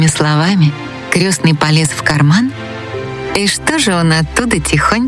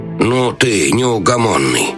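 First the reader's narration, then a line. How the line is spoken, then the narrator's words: Grumbling. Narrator (Russian): проворчал советник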